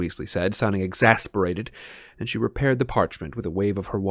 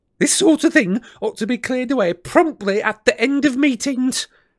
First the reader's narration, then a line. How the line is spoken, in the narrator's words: she snapped